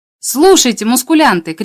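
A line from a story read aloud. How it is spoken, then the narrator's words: Shouting. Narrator (Russian): крикнул я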